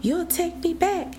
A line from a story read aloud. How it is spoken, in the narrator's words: cried